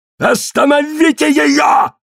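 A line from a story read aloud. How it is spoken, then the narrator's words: Shouted. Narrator (Russian): крикнул Коллинз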